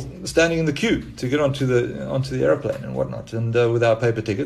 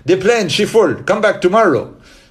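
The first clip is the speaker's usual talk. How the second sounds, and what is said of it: Bad put-on Jamaican accent. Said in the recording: “this is the worst Jamaican accent you'll ever hear”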